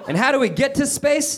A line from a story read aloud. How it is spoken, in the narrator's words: They asked, almost mockingly